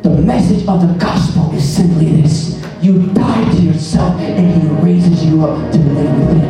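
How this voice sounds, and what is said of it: Whispering. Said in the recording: “I'm just going to whisper”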